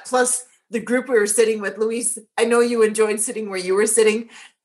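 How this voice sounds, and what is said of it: Gravelly, strained voice. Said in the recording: “I've lost my voice. ... this sore throat and this gravelly voice ... I was yelling and screaming my head off at the match”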